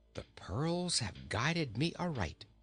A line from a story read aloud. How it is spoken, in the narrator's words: he whispered to himself